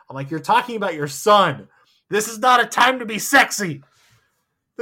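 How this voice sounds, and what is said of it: Usual voice. Nothing is said of it.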